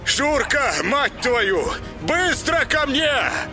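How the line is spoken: Yelling into storm. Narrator (Russian): Заорал он в бурю

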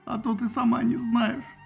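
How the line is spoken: Whining. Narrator (Russian): хныкал Ахилл

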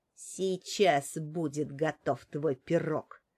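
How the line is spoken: Angry woman grumbling. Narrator (Russian): заворчала в ответ злая женщина

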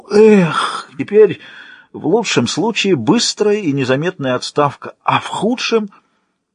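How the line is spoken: Hoarse heavy exhale. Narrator (Russian): хрипло, словно индийский слон в сезон засухи, выдохнул

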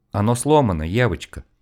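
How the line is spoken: Apologetic man. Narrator (Russian): извиняющимся голосом пояснил мужчина

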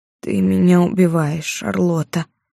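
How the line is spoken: Hoarse mumble. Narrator (Russian): севшим голосом пробормотала леди Ребекка

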